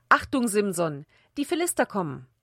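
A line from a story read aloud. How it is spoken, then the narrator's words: Called out again. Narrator (German): Wieder rief sie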